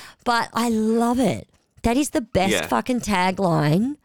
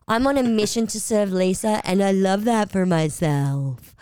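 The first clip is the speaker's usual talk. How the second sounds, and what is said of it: Imitates another person's voice. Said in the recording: “I do the worst Lisa impression”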